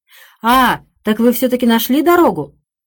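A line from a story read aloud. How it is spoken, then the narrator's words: Piercing shout. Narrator (Russian): Он пронзительно крикнул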